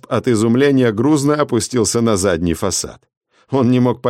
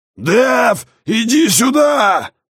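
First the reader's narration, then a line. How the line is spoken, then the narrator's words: Loud amplified yell. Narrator (Russian): заорал Расп во все динамики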